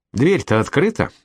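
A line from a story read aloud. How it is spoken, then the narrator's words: Thoughtful. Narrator (Russian): задумчиво сказала Колетта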